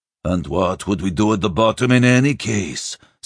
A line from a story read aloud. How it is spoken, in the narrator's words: Sludig growled